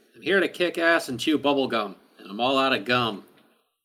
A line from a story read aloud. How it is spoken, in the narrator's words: Kara quietly from the back is heard saying